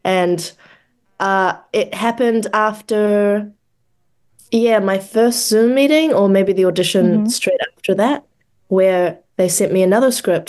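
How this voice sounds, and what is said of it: New Zealand accent. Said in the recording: “people don't hear my accent very often. Yeah. And if they do, they're like, oh, Australian ... But not specifically someone from New Zealand”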